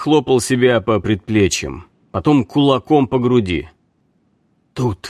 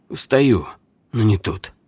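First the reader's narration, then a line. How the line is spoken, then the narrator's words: Calm. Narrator (Russian): посмотрел спокойно и сказал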